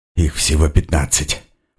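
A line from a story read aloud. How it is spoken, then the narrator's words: Muttering to oneself. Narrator (Russian): пробормотал я сам себе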